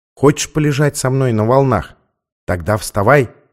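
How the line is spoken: Quiet. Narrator (Russian): сказал он тихо

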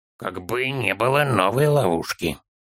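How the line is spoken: Child muttering. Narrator (Russian): пробормотал малыш

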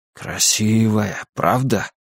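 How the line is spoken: Father's whisper. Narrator (Russian): прошептал отец

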